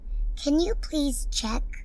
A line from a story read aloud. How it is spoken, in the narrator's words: Anjali pleaded